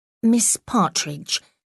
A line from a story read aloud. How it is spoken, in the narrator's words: she said, trying to make her voice sound firm